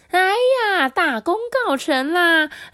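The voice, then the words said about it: Cheering voice of the tailors. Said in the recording (Chinese): “裁缝师们欢呼的声音说”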